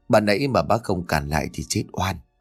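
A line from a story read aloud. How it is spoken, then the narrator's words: Frightened, trembling old man. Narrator (Vietnamese): Ông Lập vã cả mồ hôi hột run rẩy rồi bảo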